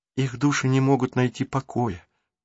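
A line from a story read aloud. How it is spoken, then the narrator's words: Whisper. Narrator (Russian): прошептала Марук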